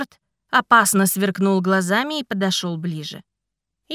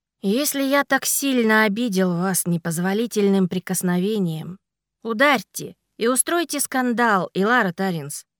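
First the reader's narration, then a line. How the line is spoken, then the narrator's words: Calm. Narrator (Russian): спокойно сказал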